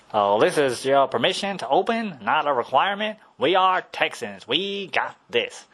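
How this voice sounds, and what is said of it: Put-on Texas accent. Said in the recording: “That is my best Texas accent I can do.”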